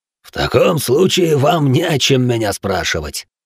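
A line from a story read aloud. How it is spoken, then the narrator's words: Rough laugh. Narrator (Russian): грубо рассмеялся Бэй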